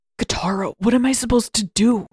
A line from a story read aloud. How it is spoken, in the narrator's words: He hissed